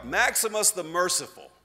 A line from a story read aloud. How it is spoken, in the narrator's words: Someone in the great crowd yelled out